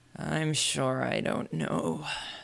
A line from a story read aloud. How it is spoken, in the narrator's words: the lion growled